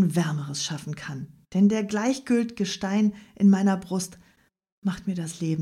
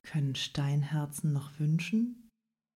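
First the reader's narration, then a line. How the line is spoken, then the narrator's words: Plain. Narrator (German): sagte jener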